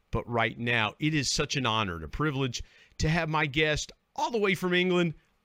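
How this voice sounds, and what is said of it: West Virginia hillbilly accent. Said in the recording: “I'm in West Virginia, hillbilly dialect here”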